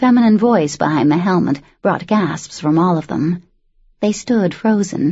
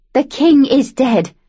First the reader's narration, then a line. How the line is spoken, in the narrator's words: Luce shouted